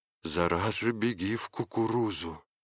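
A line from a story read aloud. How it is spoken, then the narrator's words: Whisper. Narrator (Russian): прошептала тетка Марфа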